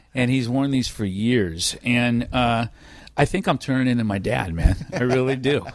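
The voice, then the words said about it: Strong California accent. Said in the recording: “super California accent”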